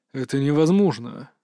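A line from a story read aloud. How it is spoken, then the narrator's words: Forced out. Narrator (Russian): выдавил он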